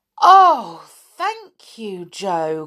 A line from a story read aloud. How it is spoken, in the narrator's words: cried Silky